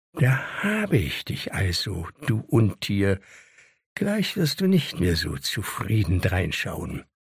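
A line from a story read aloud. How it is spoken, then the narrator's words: Quietly to himself. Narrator (German): sagte leise zu sich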